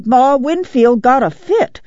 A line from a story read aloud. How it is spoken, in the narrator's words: cried